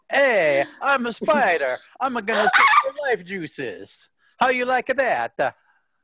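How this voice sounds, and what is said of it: Spider character with Italian accent. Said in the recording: “He has an Italian accent.”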